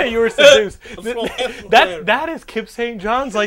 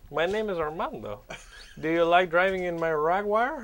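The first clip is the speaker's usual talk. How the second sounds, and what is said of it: Put-on vague, hard-to-place accent. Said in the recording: “what is that accent? Like it is the random accent ... his accent is diluted”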